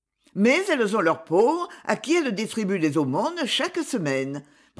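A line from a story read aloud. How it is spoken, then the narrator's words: Sharp protest. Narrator (French): protesta vivement Myrtot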